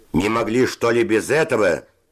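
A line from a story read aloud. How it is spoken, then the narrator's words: Shout. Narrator (Russian): закричал Севочка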